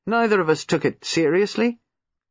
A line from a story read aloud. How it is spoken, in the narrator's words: he added dryly